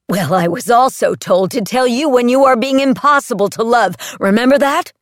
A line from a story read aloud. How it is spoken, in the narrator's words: he yelled back